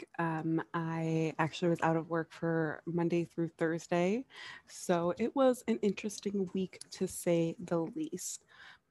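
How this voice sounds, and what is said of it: Sick-sounding voice. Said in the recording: “As you can probably hear in my voice, I have been pretty sick this week.”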